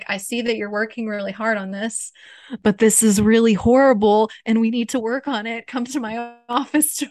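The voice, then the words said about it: Serious voice. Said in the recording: “No, she didn't use a spy voice. I'm just using my serious voice.”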